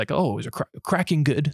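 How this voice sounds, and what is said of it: Horrible put-on Australian accent. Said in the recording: “that's a horrible Australian accent,”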